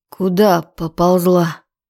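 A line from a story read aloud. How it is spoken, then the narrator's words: Hoarse morning voice. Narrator (Russian): От его хриплого утреннего голоса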